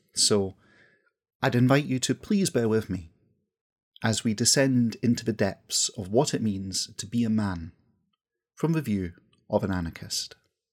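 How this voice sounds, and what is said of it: West coast Scottish accent. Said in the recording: “you might also have noticed that I come from the west coast of Scotland. I'm Scottish, and that carries through my accent.”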